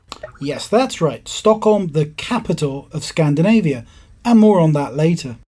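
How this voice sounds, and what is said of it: British accent. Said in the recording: “I've got a different accent to Maura. In fact, I'm British from the other side of the pond.”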